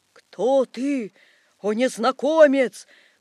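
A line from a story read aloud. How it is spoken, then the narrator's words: Shout. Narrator (Russian): крикнул Наполеон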